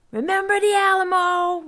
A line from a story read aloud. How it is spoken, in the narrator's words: Vaco yelled as they pounded down the trail